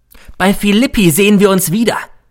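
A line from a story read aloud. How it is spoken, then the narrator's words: Parting call. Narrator (German): rief er mir noch zu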